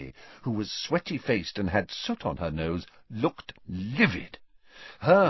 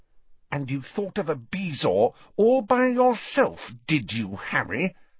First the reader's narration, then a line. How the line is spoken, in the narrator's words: she asked through gritted teeth